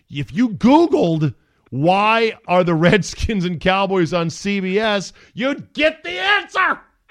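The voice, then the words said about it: Yelling, raised loud voice. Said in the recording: “I'm not yelling, am I? I'm yelling.”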